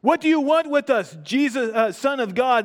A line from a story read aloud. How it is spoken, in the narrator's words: they shouted